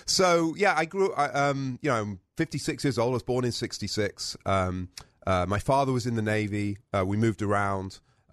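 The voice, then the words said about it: British accent. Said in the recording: “we share a somewhat similar accent as listeners and viewers will detect. ... You still got yours.”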